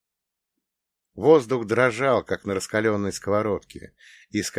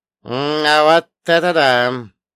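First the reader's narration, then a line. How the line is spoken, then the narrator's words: Drawn-out drawl. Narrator (Russian): протянул Черномор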